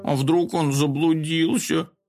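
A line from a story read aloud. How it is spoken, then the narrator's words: Frightened whimpering. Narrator (Russian): захныкал Компот, который тоже испугался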